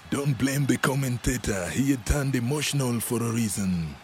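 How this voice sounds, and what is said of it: Usual voice. Nothing is said of it.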